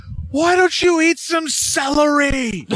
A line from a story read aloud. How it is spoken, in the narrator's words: And he's just yelling at her going